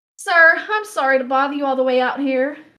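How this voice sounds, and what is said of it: Winded, anxious southern drawl. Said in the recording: “She sounded winded, a bit of anxiety to her southern drawl.”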